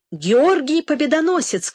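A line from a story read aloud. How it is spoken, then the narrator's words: Shout. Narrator (Russian): крикнул он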